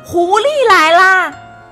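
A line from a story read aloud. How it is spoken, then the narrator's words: Loud shout. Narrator (Chinese): 小猫菲菲大喊一声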